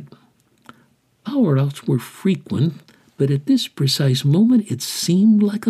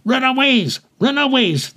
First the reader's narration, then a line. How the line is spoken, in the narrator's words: the burner shouted